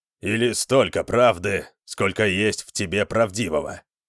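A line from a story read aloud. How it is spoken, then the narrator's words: Grumbling mutter. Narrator (Russian): пробурчал Скирон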